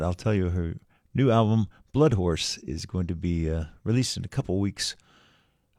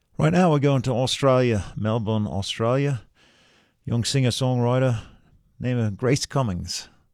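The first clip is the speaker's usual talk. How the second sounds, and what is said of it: Fake Australian accent. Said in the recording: “my fake Australian accent”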